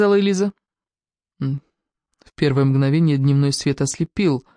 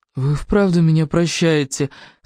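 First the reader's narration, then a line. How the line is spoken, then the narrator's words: Whining. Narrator (Russian): скулил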